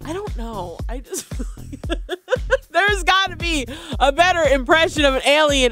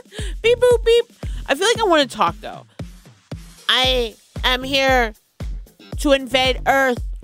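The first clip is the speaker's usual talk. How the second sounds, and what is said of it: Alien character voice. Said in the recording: “your best impression of an alien ... Mine is pretty simple”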